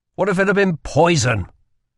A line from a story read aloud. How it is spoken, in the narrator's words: he snapped